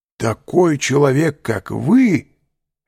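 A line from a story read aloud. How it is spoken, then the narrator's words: Exclaiming. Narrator (Russian): воскликнул Альбер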